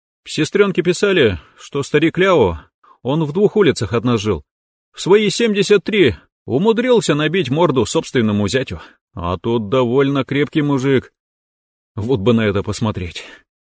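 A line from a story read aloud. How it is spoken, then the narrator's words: Dreamy sigh. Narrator (Russian): мечтательно вздохнул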